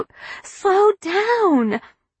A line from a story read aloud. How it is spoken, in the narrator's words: Ginger bit her lip and her tongue and screamed out